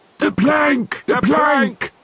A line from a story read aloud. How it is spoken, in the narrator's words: yelled Ben Buckle and Percy Patch